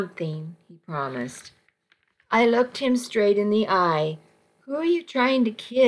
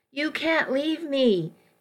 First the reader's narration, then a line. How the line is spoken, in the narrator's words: he yelled as I walked away